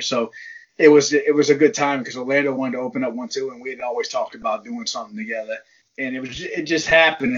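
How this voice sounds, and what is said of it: New Orleans Cajun twang accent. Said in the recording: “I hear that New Orleans accent ... it's like that ghetto Cajun twang.”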